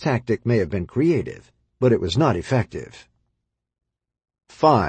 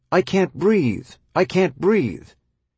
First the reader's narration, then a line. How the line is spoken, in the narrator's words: One creative child, whose mother had just sent her to her bedroom, was heard yelling out her window